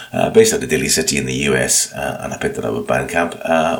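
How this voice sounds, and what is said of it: Croaky, hoarse voice. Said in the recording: “You can probably tell from my voice, I'm a bit croaky.”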